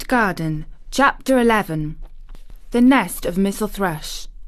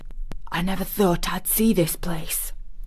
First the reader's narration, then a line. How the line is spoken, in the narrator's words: he said at last, in a whisper